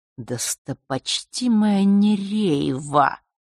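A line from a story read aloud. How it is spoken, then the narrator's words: Hiss. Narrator (Russian): прошипел Нортон-старший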